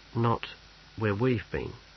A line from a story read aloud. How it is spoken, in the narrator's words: said Snibril quietly